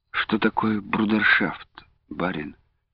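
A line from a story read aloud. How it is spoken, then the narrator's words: Dejected question. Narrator (Russian): упавшим голосом спросила Люба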